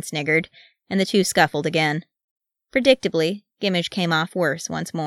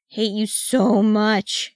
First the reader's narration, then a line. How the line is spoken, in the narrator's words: he moaned